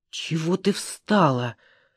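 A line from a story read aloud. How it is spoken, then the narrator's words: Hissing. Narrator (Russian): зашипела она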